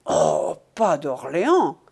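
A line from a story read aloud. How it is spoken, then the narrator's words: Exclaiming, attempting a witticism. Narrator (French): s'écria Sisi, lequel était légitimiste et crut faire un mot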